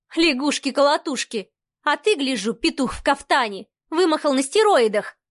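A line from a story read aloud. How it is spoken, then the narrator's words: Snorting. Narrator (Russian): фыркнула она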